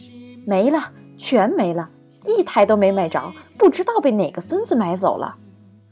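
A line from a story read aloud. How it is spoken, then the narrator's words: Loud exasperated complaining. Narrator (Chinese): 一个气急败坏的青年对着手机大声的发牢骚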